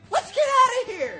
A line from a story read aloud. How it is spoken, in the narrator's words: Marco screamed